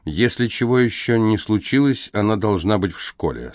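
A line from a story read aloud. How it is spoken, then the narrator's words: Plain. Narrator (Russian): сказал Алейн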